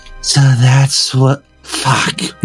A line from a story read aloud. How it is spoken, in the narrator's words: with a small, triumphant smile, Kimber murmured